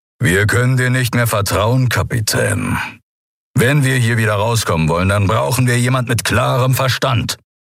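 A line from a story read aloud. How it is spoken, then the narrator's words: Composed growl. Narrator (German): Überraschend gefasst knurrte er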